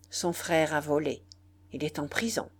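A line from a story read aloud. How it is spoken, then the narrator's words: Harsh. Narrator (French): dit la mère durement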